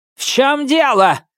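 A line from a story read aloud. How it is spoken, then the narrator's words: Barked. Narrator (Russian): рявкнула Хирана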